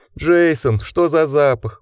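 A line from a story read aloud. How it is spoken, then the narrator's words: Wolf groaning. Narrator (Russian): простонал волк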